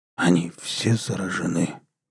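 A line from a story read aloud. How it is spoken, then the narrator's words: Bewildered mutter. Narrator (Russian): пробормотал микробиолог, растерянно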